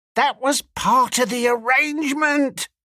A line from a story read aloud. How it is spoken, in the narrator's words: cried Squealer